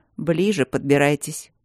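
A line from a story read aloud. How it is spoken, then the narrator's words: Muttering. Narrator (Russian): пробурчал он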